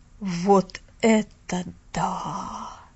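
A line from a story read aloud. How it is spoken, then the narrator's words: Breathless exhale. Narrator (Russian): Выдохнул мистер Пендлтон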